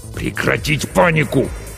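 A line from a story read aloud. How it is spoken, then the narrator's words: Captain hissing. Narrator (Russian): снова прошипел капитан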